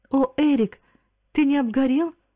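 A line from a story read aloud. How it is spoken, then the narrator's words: Joyful exclamation. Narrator (Russian): воскликнула она вне себя от радости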